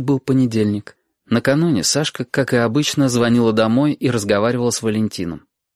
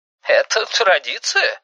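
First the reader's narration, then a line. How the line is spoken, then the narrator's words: Fake laugh. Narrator (Russian): фальшиво засмеялся Валентин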